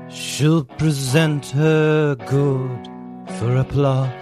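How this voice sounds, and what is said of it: Sings in a put-on accent. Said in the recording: “Why are you doing an accent? He doesn't have an accent.”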